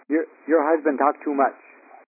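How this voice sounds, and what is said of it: Imitated Vietnamese accent. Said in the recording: “I'm sure it was in a Vietnamese accent ... That's my best Vietnamese impersonation I can do”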